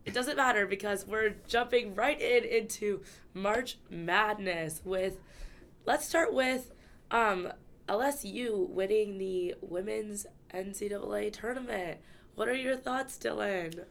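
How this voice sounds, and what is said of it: Slightly unwell, weird-sounding voice. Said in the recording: “I am slightly under the weather, so you might be hearing it based on this recording. You might be like, why does your voice sound weird?”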